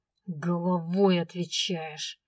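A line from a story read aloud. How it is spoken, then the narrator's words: Angry, through teeth. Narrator (Russian): зло процедил он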